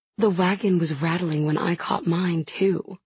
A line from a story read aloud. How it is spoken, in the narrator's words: Merity says evenly, with no hint of a smirk in her voice